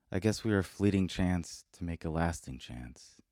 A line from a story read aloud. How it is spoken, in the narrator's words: She said slowly